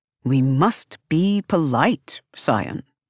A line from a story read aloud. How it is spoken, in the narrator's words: he says